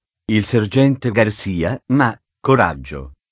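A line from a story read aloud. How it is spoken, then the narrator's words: Whispering. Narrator (Italian): sussurrò Zorro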